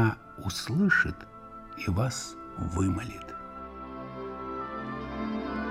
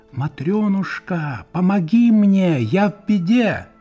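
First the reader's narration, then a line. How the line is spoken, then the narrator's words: Loud shout, three times. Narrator (Russian): громко крикните 3 раза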